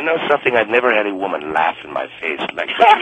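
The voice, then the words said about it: Noticeable foreign accent. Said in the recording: “that funny accent ... Phony”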